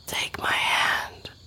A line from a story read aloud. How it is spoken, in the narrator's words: whispered